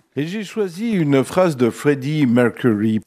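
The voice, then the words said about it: Slight foreign accent on a name. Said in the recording (French): “On entend tout de suite le gars qui maîtrise la langue à merveille. Cette petite touche d'accent qui fait toute la différence.”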